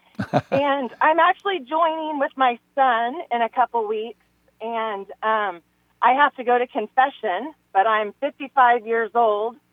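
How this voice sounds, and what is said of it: Emotional, choked-up voice. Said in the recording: “I'm kind of getting choked up here”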